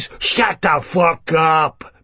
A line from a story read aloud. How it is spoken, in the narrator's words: Begbie sneers